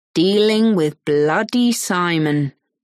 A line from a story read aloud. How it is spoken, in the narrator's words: he says slowly